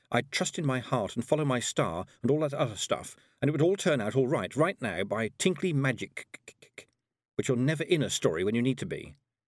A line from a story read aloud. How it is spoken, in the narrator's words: she thought bitterly